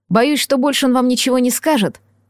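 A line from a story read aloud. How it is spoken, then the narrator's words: Sighing. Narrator (Russian): вздохнул Лисичкин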